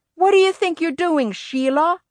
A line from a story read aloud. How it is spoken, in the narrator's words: he yelled